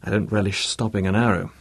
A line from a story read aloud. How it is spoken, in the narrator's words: he said